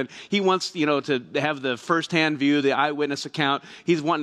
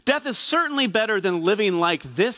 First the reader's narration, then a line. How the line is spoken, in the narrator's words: he exclaimed